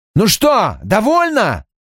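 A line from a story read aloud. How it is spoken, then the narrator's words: Roar. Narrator (Russian): взревел он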